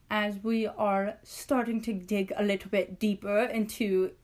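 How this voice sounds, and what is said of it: Put-on English accent. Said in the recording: “Keep changing accents. ... David Bowie's English, so I'm English too now.”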